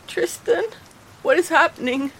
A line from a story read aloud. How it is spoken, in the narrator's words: squeaked